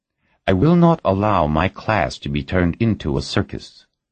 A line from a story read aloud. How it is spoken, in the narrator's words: Ferraro replied coldly